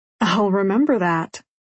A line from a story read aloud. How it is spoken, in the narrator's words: he says with a chuckle